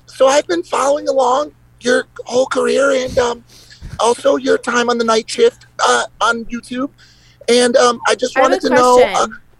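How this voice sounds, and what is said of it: Weak put-on old granny voice. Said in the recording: “Are you cosplaying a granny right now ... I'm not very good at the voices ... acting skills are not great ... That was weak”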